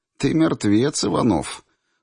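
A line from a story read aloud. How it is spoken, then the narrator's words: Smirking snort. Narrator (Russian): хмыкнула Кабалия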